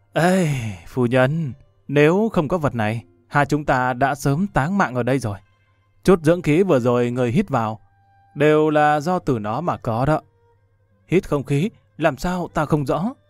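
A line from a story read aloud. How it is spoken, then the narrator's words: Moved, sighing. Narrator (Vietnamese): Lâm Văn Vinh cảm khái thở dài một tiếng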